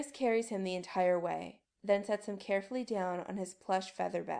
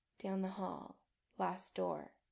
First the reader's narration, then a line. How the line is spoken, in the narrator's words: Adam says softly